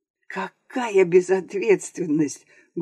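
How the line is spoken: Loud exclaiming whisper. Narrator (Russian): громким шепотом воскликнул другой голос

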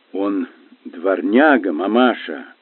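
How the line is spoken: Grim, firm declaration. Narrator (Russian): мрачно, но твердо заявил мистер Паучер

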